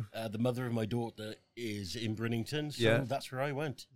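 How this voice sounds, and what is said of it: South Welsh accent. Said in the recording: “you do not have what I would say is a normal Stockport accent ... I'm from Merthyr Tydfil in South Wales”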